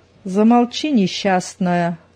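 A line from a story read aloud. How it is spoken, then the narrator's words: Menacing reply. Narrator (Russian): грозно отозвалась Зина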